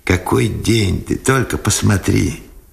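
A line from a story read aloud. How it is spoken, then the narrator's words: Joyful male voice. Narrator (Russian): радостно сказал Сенцов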